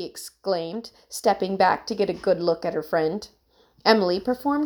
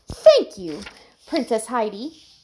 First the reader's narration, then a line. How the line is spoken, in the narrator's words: laughed